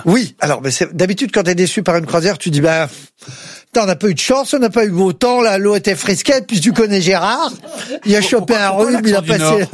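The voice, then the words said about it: Put-on northern French accent. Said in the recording (French): “l'accent du Nord”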